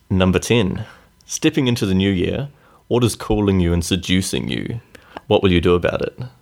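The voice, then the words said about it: New Zealand accent. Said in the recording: “With your Kiwi accent.”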